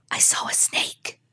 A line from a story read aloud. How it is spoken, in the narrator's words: the young man whispered in his uncle's ear